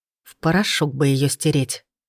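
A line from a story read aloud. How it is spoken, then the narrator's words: Angry whisper. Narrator (Russian): злой шепот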